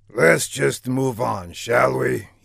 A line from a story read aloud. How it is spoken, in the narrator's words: he finally muttered